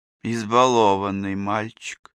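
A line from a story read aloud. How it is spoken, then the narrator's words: Sigh. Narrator (Russian): вздохнула вода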